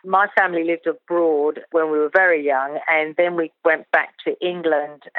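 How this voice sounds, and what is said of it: Slight English accent. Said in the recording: “I've got a little bit of an English accent.”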